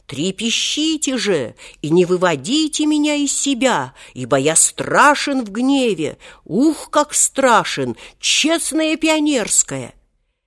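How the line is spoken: Breathless shouting. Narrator (Russian): Волька, не переводя дыхания, закричал

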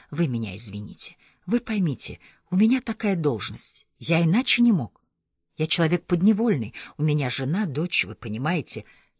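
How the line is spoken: Rapid, rushed whisper. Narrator (Russian): глотая слова быстро-быстро, зашептал

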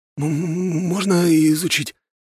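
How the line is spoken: Trembling voice. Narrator (Russian): подрагивающим голосом спросил Павел Матросов

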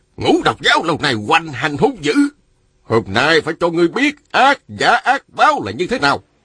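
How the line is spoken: Angry. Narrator (Vietnamese): Đạo sĩ râu dài giận dữ nói

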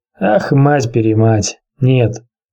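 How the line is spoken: King's hoarse voice. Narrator (Russian): проговорил хриплым голосом король

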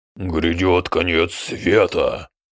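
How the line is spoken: Deep bass voice. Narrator (Russian): пробасил Мектик

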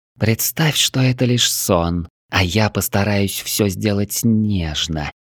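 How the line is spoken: Near whisper in ear. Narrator (Russian): едва не прошептала мне на ухо Великая

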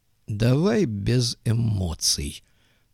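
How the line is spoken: Calm. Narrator (Russian): спокойно сказал Голубков

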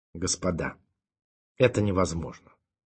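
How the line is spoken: Calm. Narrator (Russian): спокойно сказал он

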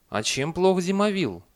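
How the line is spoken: Angry reply. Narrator (Russian): ответила и сердито поджала губы

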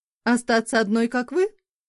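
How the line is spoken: Snide remark. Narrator (Russian): ехидно бросила

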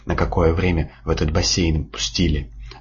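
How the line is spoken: Timid squeak. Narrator (Russian): Робко пискнул он

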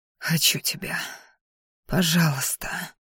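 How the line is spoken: Whispering between kisses. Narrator (Russian): шептал между поцелуями

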